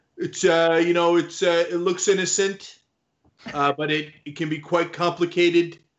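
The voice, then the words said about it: Imitates another person's voice. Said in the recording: “Your Trump impersonation is not bad. It is really an impersonation of Alec Baldwin doing Trump, but that's also not bad ... It's spot on.”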